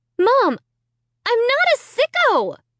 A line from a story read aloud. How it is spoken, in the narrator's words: I shrieked